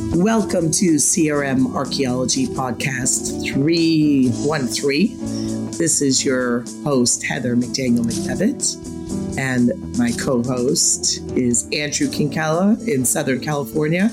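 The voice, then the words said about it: Raspy, husky hoarse voice. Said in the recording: “if you can hear it in my voice... This is my Kathleen Turner stage of my life... the sexy, raspy voice... with the occasional phlegm hacking”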